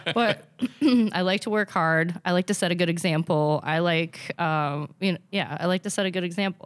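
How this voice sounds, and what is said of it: Minnesotan accent. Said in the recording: “I have such a Minnesotan accent sometimes.”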